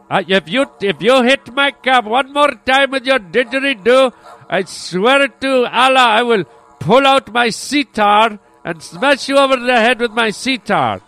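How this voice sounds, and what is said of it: Stereotypical cab driver accent. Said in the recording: “I'm doing the stereotypical, you know, accent for the cab driver”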